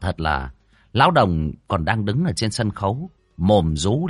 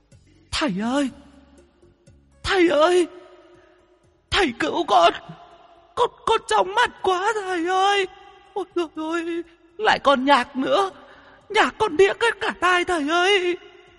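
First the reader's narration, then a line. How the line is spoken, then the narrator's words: Whimpering, distressed. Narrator (Vietnamese): Con vong bấy giờ bị ánh đèn laser chiếu cho té le, nhìn ra cậu mếu máo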